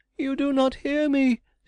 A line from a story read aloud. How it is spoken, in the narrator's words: shrieked the poor wretch